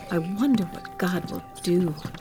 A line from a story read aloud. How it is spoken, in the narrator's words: they whispered to each other